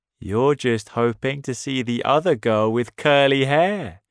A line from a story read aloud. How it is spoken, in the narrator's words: said, and laughed